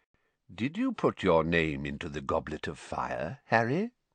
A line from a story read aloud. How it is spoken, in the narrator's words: Dumbledore asked calmly